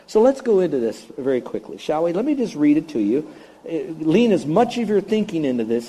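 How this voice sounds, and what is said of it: Usual voice. Nothing is said of it.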